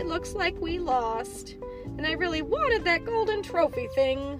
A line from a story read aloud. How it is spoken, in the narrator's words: Hook whines